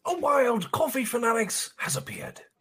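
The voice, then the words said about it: Nature documentary narrator voice. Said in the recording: “can you do this in your best Discovery Channel voice? ... he's got some awesome voices”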